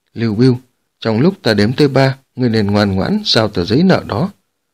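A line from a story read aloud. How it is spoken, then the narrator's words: Cold voice. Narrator (Vietnamese): tiếng nói lạnh lùng của Tống Vân Nhi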